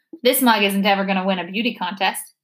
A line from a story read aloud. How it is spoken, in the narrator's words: he chuckled